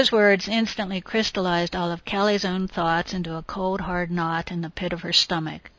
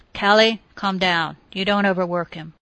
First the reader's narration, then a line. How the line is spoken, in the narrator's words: assured her firmly